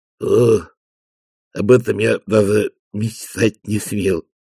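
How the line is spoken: Muttered. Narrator (Russian): пробормотал он

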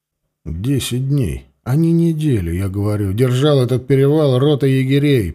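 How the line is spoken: Through gritted teeth. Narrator (Russian): процедил сквозь зубы Алексей

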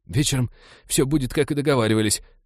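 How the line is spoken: Frightened whimper. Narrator (Russian): затравленно проскулил тип

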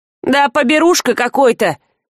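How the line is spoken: Belated distant shout. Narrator (Russian): с запозданием крикнул от ворот батрак

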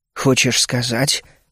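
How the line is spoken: Mumbling. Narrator (Russian): пробормотал я

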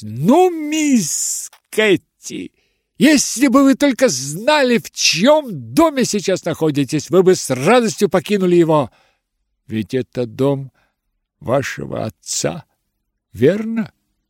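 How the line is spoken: Furious shouting. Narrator (Russian): я закричала, ужасно сердясь

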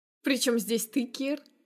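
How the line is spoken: Chuckling. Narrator (Russian): Хохотнув

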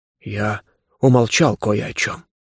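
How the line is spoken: Quiet. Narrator (Russian): тихо сказал дух

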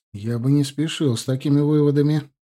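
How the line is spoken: Nervous laugh. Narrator (Russian): нервно рассмеялся

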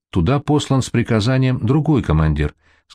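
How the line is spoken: Plain. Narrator (Russian): сказал Артемьев

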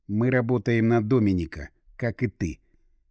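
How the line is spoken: Quiet, hushed. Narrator (Russian): так, чтобы не расслышал, Игорь тихонько произнес

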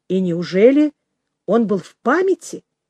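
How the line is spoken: Plain. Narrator (Russian): спросил Петр Иванович

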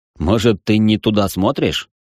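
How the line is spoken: Wry snort. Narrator (Russian): хмыкнул я

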